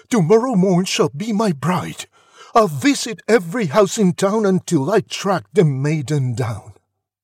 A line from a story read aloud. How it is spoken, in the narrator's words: he cried